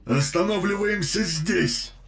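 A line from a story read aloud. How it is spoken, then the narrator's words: Shout. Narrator (Russian): прокричал капитан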